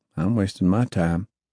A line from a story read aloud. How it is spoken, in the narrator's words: Duke said flatly